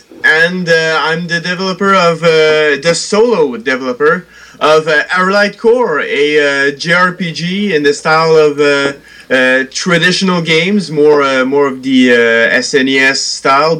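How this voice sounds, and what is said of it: French-Canadian accent. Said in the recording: “I'm a French-Canadian, as you might have heard from my accent.”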